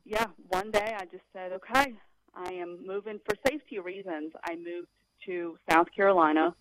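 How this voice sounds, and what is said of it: Southern American accent. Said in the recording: “I thought you had a Southern accent. ... wow, I did pick up a Southern accent. ... you're a Southern accented”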